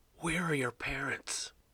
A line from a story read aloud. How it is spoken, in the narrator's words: Bob asked in a whisper